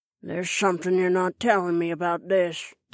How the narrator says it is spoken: the woman growled

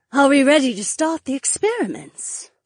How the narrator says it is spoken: an alluring voice purred

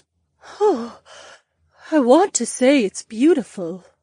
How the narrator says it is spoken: Daisy gasped

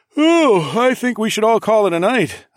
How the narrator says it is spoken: I said with a fake yawn

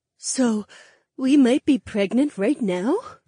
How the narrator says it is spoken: Daisy gasped

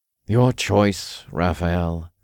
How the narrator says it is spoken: Uriel sighed

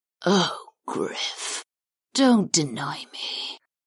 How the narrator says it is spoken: the Arkin purred

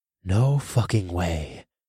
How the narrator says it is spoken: breathed

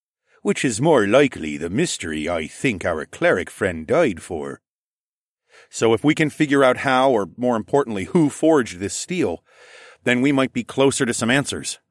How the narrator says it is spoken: I said

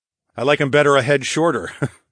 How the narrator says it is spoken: I chuckled darkly

